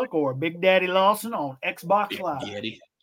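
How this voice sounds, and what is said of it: Exaggerated country accent. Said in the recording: “every time you say Big Daddy Lawson, there's like that big country accent that you got to go with it”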